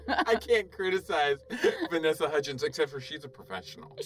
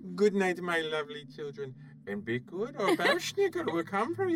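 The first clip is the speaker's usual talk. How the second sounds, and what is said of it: Silly put-on unidentifiable accent. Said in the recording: “I don't even know what accent that was. ... That was a dumb Adam Sandler character.”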